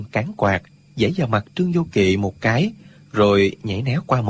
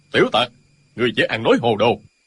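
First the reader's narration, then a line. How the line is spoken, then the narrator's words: Loud shout. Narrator (Vietnamese): Tiên Du Thông quát lớn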